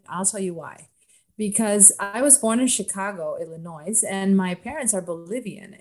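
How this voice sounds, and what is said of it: Hard-to-place international Spanish-tinged accent. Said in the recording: “My accent is undefined ... I don't know if it's Bolivian Spanish accent or Cuban Spanish accent or just international accent ... hard to pinpoint exact location ... Definitely international.”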